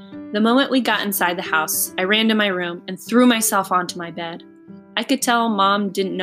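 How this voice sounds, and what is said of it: Usual voice. Nothing is said of it.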